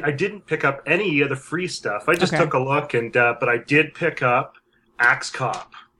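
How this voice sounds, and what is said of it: Strong Canadian accent. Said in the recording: “you have a very strong Canadian accent. It's even worse than our friend Thracken.”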